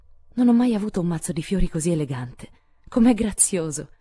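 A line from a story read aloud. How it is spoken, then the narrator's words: Exclaiming. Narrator (Italian): esclamò Meg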